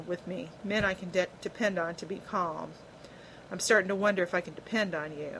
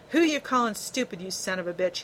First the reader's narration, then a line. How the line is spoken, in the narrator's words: he snarled